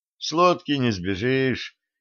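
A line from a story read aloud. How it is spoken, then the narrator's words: Resigned sigh. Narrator (Russian): вздохнул Максим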